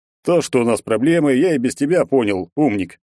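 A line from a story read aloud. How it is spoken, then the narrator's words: Scoffing snort. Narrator (Russian): хмыкнул Егор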